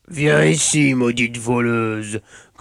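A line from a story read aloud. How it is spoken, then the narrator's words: Growled. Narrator (French): grogna Osvaldo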